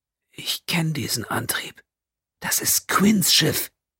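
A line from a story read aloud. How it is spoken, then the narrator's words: Tense whisper. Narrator (German): Pennington … sagte in einem angespannten Flüstern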